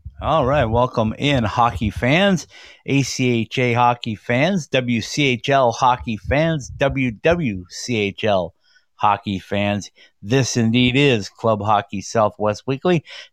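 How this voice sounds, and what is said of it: Slightly raspy, hoarse voice. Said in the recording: “a slightly raspy voice, suffering from pneumonia”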